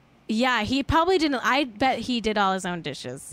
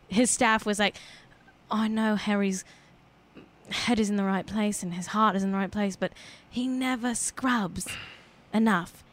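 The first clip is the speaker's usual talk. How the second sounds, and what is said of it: Put-on British accent. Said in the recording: “British accent”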